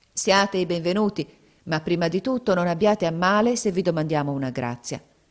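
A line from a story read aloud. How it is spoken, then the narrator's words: Grave serious woman's voice. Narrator (Italian): Zobeida disse loro con tuono grave e serio come a lei conveniva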